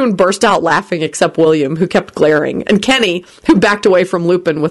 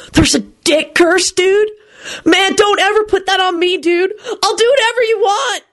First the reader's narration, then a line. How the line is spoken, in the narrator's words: he shouted desperately